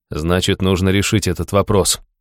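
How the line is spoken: Cold. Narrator (Russian): холодно ответил я

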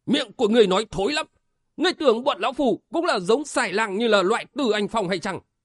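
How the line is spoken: Roaring. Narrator (Vietnamese): Táng Thiên Ông gầm lên

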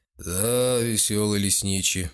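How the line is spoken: Lazy, yawning agreement. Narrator (Russian): согласился бюргермейстер и лениво зевнул

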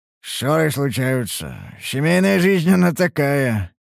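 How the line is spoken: Wry snort. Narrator (Russian): хмыкнул я

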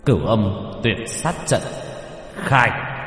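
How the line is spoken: Shouted command. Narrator (Vietnamese): quát lên một câu

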